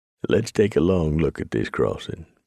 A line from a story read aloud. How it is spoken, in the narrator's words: Preacher said